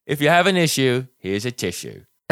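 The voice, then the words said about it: Nasal imitated voice. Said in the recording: “You got to get nasal. ... you're doing this too well”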